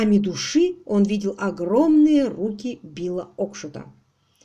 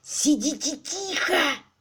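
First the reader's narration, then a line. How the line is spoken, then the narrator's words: Hissed. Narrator (Russian): прошипел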